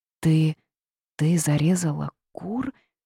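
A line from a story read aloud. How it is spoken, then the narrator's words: Trembling old woman's question. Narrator (Russian): дрожащим голосом переспросила старуха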